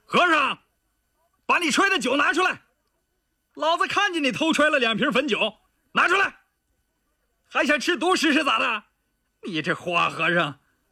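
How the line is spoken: Loud bellow. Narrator (Chinese): 他……朝屋外大吼道

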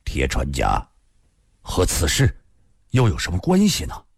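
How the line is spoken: Low, heavy voice. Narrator (Chinese): 一鸣堂的脸色已发青，沉声地说道

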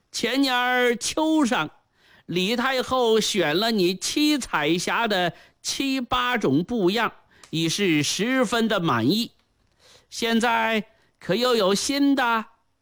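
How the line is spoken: With a smile. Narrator (Chinese): 冯宝笑了笑，又说

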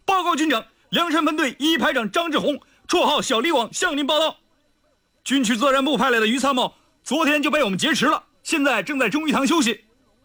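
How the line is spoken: Loud. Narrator (Chinese): 于参谋大声道

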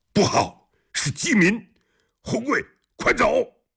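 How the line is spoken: Loud shout. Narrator (Chinese): 侯君集大喊

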